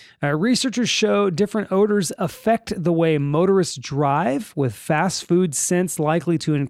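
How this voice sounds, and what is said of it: Usual voice. Nothing is said of it.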